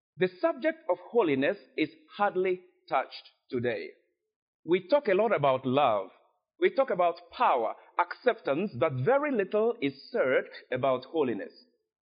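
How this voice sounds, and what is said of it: Speaks English with an accent. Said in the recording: “I recognize I have an accent.”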